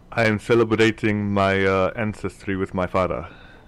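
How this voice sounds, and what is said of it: Put-on Wakandan accent. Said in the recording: “the Chief has suddenly developed a Wakandan accent”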